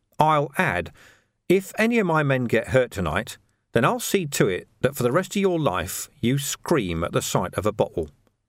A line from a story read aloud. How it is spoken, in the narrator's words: said Vimes quietly